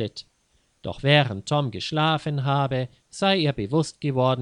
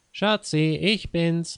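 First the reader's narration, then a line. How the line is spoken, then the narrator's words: Called out. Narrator (German): rief er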